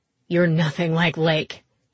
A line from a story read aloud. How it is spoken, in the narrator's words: snapped